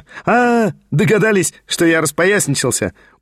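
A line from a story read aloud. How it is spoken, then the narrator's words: Very merry laughing. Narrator (Russian): Ужасно весело рассмеялся и Петр Степанович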